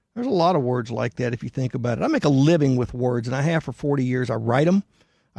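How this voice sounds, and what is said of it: Southern American accent. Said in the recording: “I speak them with a Southern accent”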